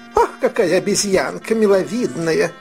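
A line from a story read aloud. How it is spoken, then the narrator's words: Plain. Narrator (Russian): говорит дама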